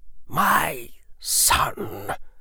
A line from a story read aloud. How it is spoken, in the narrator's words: Lucius Malfoy said in a heavy voice